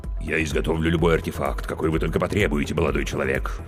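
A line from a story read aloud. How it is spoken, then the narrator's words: Deep bass voice. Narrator (Russian): пробасила трагедия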